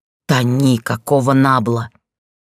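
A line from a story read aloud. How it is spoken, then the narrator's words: Growling voice. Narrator (Russian): голос напоминал рычание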